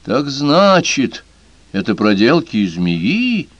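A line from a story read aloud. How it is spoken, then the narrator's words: Laughing incoherent mumbling. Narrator (Russian): Око заливалось смехом и бессвязно бормотало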